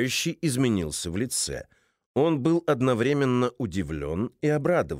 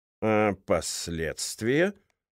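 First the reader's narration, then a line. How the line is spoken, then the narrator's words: Deep sigh, then answer. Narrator (Russian): Цензор глубоко вздохнул и ответил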